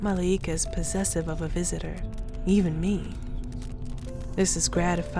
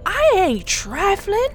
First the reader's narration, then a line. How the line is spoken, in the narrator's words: Miss Thin yelled